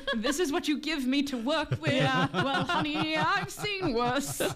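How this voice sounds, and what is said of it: Put-on British accent. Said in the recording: “he's got a British accent.”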